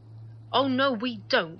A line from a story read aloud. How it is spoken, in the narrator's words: Chan said sharply